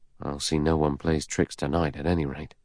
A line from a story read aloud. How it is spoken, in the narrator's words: He murmured